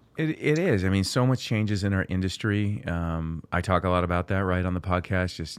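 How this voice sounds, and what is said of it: Tired, slightly hoarse voice. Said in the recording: “I sound a little tired. I'm a little hoarse”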